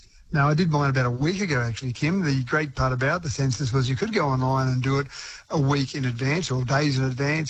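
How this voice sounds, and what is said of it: New Zealand accent. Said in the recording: “that New Zealand accent of yours”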